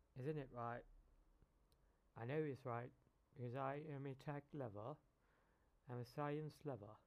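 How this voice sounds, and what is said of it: Unclear, tired-sounding voice. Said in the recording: “my voice is not clear today because I'm really exhausted today”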